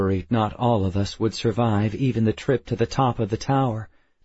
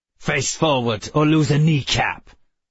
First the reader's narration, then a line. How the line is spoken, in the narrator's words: growled guard